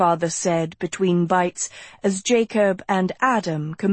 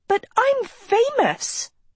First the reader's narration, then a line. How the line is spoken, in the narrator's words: Sophie shrieked